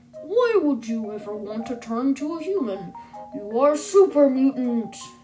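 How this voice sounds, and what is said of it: Imitates a video game super mutant. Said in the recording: “I can probably do a better impression”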